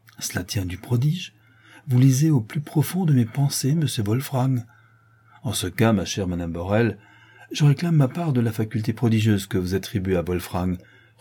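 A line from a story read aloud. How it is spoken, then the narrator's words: Cheerful reply. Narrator (French): reprend gaiement Sylvia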